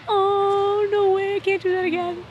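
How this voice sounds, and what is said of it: Whiny baby-like voice. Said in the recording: “Why are you talking like a baby?”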